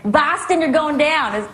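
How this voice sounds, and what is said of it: Weak attempt at Boston accent. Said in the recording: “That's my best accent, no? ... Yeah, no. Definitely no.”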